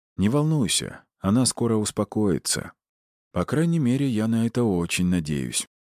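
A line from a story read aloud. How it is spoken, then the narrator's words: Sad inner thought. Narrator (Russian): добавил он мысленно и печально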